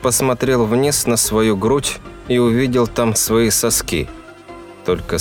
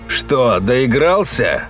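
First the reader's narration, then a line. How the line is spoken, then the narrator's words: Father's gruff question. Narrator (Russian): грубо спросил отец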